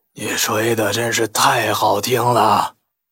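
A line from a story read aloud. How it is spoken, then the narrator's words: Strange hoarse voice. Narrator (Chinese): 那个沙哑的怪声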